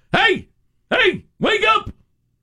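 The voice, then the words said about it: Shouting, bellowing. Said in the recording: “he's shouting... he's bellowing at him”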